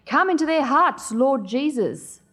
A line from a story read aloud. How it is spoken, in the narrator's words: The minister threw back his head and shouted